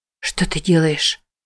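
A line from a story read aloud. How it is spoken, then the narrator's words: Whisper. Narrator (Russian): прошептала она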